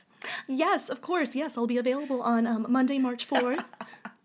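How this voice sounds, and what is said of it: Polite formal phone voice. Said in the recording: “You do your phone voice like, hello.”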